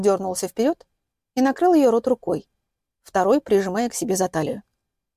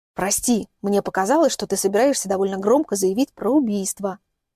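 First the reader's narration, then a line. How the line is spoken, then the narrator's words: Whisper. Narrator (Russian): шепнул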